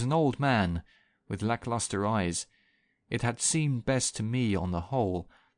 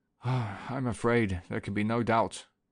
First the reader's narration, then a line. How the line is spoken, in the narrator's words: the coroner confirmed in his heavy, tired voice